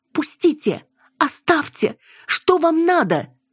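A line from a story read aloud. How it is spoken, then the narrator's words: Scream cut off choking. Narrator (Russian): закричала и задохнулась, получив удар в лицо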